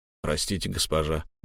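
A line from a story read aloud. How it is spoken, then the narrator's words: Guard's gruff mutter. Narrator (Russian): буркнул стражник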